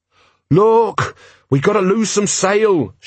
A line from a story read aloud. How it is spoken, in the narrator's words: shouted Jenkins